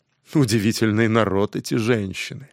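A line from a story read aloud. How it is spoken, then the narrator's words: Quiet exclamation. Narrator (Russian): Тихо воскликнул он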